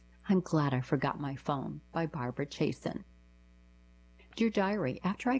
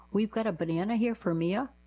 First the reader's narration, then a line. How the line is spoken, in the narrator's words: the man running the shop called out in a very confused tone